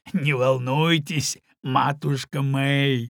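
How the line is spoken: Old man laughing. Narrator (Russian): рассмеялся старый Тоби

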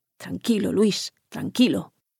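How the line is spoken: Murmur. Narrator (Spanish): murmuraba

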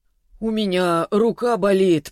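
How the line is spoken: Moaning. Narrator (Russian): простонал Селиванов

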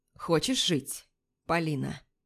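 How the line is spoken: Asked. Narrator (Russian): спрашивает

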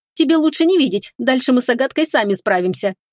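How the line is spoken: Cheerful announcement. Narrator (Russian): весело известила она

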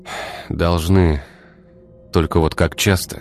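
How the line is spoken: Sad sigh. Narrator (Russian): грустно вздохнул Игорь

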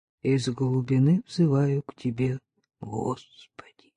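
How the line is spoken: Muffled mutter. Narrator (Russian): глухо пробормотал

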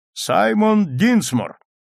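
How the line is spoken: Court clerk reading loudly. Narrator (Russian): секретарь суда громко прочитал

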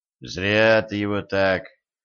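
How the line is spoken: Sighing. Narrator (Russian): вздохнул Денис

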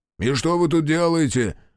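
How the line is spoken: Impatient bark. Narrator (Russian): рявкнул главный, начиная терять терпение

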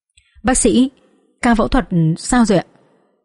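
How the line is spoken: Trembling question. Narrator (Vietnamese): Tôi và mẹ run run và hỏi

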